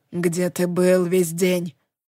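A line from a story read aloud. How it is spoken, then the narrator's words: Private whisper. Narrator (Russian): прошептала Скарлетт, чтобы услышал лишь я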